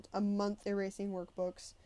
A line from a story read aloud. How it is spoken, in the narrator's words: I grumbled